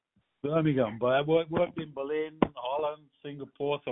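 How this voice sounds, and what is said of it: Distinct mixed English Midlands accent. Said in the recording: “you got an accent that's very distinct ... Middle of England, Birmingham ... I was born in Liverpool, so my accent is really messed up”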